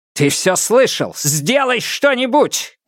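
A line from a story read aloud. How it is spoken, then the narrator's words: Shout. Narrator (Russian): крикнул он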